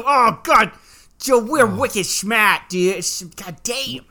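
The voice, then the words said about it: Put-on Boston accent. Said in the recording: “I was doing the Boston accent.”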